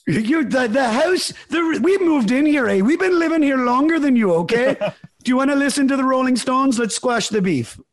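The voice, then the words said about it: Mediocre put-on Canadian accent, slightly Irish. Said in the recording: “I'm starting to turn into my Canadian accent's not very good. It's not terrible. ... It sounds a little Irish”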